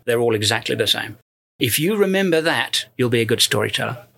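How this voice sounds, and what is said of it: British accent. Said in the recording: “you have a British accent ... there is something about a British accent”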